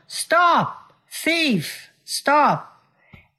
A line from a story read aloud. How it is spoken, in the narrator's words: a shout of